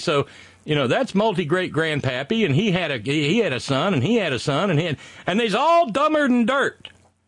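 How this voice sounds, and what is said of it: Southern accent. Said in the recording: “you got me using ain't and my southern accent”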